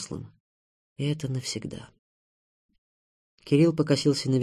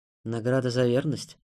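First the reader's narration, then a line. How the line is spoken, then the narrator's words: Plain question. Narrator (Russian): спросил Заров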